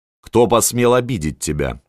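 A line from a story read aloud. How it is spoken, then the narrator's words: Menacing question. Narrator (Russian): спросила Анна грозно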